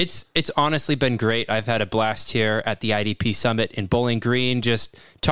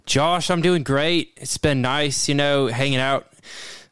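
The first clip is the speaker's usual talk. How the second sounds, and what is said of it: Failed Southern accent sounding Australian. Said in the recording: “I can't even pull off that Kentucky accent... was going straight to Australia. You went straight down under... I tried to pull on that southern accent. It doesn't work.”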